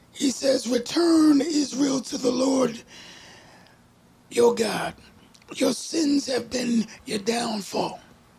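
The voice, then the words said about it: Preacher voice delivery. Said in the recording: “putting on my preacher voice right now. ... Put the preacher voice on.”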